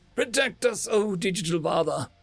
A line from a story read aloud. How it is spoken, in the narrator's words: choked out